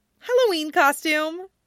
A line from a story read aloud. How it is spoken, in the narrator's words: Mito says brightly